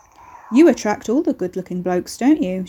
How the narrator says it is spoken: she remarked dryly

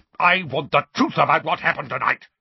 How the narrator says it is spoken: barked Uncle Vernon

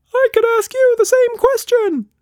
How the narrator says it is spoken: Quatsch Monster squeaked

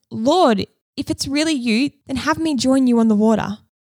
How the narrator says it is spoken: Peter shouted

